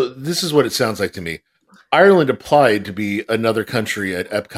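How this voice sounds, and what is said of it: Usual voice. Nothing is said of it.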